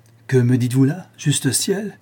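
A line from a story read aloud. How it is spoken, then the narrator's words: Old man, ashamed, flaring. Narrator (French): s'écria le vieillard, dont les joues se colorèrent de honte et dont l'œil s'alluma d'éclairs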